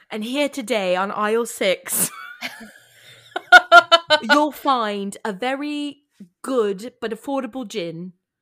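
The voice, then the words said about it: Put-on English accent, not good. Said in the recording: “notice I'm English ... We are not claiming that these are good accents. They are just accents that we are performing for you tonight.”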